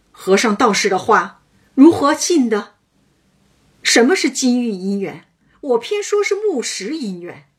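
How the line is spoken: Shouting scoldingly in sleep. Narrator (Chinese): 宝玉在梦中喊骂说

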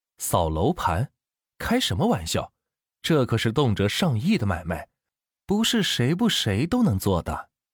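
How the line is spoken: Ingratiating, smiling. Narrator (Chinese): 销售顾问陪着笑脸说道

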